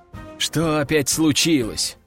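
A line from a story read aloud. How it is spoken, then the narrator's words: Sighing. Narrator (Russian): вздохнул я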